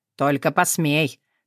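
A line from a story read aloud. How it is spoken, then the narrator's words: Growled. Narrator (Russian): прорычал Тёма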